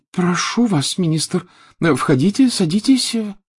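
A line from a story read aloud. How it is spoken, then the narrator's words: Flustered babble. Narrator (Russian): залепетала миссис Уизли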